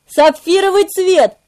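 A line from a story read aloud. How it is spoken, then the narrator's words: Shouted out. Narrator (Russian): выкрикнул я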